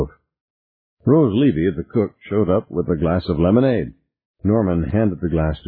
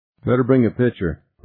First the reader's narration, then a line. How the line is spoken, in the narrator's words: Norman said